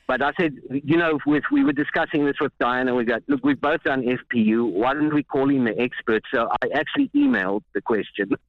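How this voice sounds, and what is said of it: South African accent. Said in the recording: “Can I ask where your accents are from? Because I want one. ... It's South Africa.”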